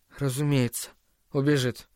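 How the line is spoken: Mutter. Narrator (Russian): пробормотал он

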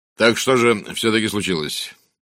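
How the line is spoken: Authoritative official tone. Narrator (Russian): спросил человек в штатском властным официальным тоном

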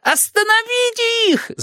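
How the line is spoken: Shouted. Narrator (Russian): закричал он своим халуям

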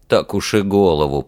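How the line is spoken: Grumbling. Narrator (Russian): проворчал Александр

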